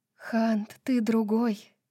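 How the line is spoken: Tender, loving voice. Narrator (Russian): нежным, любящим голосом сказала

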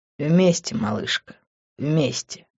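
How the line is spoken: Deep sigh. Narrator (Russian): глубоко вздохнул

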